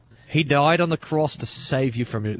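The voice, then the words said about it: Southern accent that sounds Australian. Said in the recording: “It's Australian. ... That's really southern. That's so far south, it's southern hemisphere. ... how come your Chinese accent sounds like you're Australian?”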